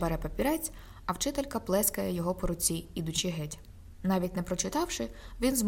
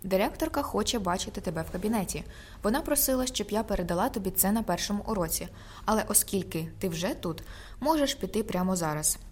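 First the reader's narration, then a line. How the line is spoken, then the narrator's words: Calm speech. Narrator (Ukrainian): спокійно кажучи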